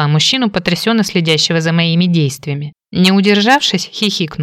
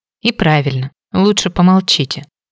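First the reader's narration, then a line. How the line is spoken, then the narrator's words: Whispered. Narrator (Russian): прошептала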